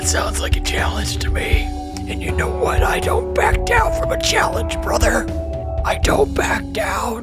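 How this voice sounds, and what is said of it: Strained, forced character voice. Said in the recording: “doing voices ... You look severely constipated doing that voice ... when you talk like that, you don't have a neck”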